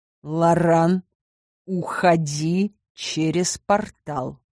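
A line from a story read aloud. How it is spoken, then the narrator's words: Quiet command. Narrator (Russian): негромко приказал Харн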